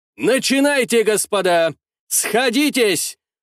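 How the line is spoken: Shout. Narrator (Russian): выкрикнул святополк Аполлинарьевич Мирский

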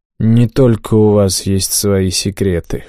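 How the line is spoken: Smirking snort. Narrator (Russian): хмыкнул я в ответ

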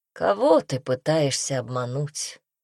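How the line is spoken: Calm. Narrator (Russian): спокойно произнес он

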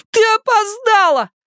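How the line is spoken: Shouting. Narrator (Russian): закричал он

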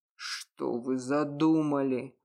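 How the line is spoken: Restrained angry growl. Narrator (Russian): прорычал, едва сдерживая эмоции

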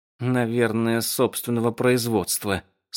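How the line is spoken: Through gritted teeth. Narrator (Russian): сказала Али сквозь зубы

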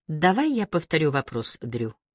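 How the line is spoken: Calm. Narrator (Russian): спокойно продолжила

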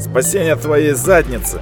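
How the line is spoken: Man's mocking snort. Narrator (Russian): хмыкнул мужчина

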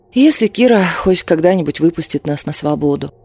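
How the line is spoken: Sighing. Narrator (Russian): вздохнула я

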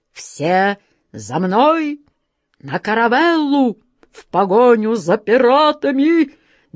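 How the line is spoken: Quavering old man's shout. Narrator (Russian): дребезжащим голосом крикнул капитан Христофор Колумб

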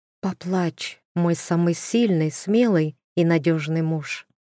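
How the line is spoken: Whisper. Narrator (Russian): Маша шепнула

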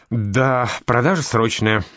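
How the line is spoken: Thoughtful, heavy sigh. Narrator (Russian): задумчиво сказал он и тяжело вздохнул

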